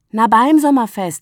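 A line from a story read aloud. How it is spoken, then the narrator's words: Calling out. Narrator (German): rief Agathe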